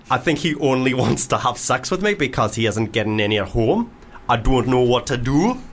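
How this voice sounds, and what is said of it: Put-on Geordie accent, odd emphasis. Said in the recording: “Oh, I went a bit Geordie. ... doing an accent ... the emphasis is off. You sound like Sven-Göran Eriksson, mate.”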